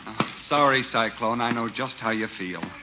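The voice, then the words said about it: Sarcastic delivery. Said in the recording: “are you being sarcastic?”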